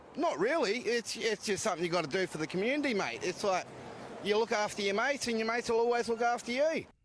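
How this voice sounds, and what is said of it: Australian accent. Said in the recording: “The Australian accent doesn't do it for me, though.”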